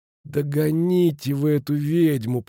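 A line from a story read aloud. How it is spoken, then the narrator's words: Moaned. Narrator (Russian): простонал Футаки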